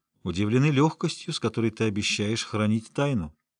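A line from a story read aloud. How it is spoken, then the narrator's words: Calm. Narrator (Russian): спокойно сказал Эскель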